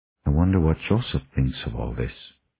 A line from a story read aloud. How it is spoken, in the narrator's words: Grover said softly